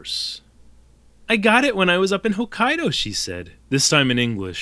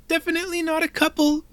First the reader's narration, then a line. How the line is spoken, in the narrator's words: Mio squeaked